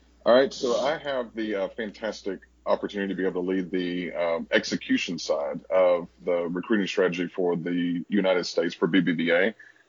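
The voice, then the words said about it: Southern American accent. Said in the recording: “they're going to pick up that Southern accent”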